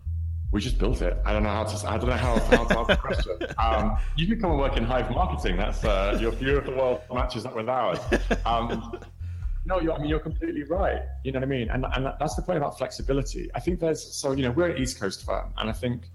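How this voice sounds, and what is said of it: Non-local accent. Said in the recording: “despite my funny accent”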